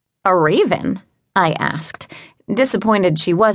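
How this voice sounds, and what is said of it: Usual voice. Nothing is said of it.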